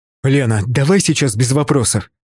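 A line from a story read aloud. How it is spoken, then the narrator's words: Sharp. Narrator (Russian): Резко сказал я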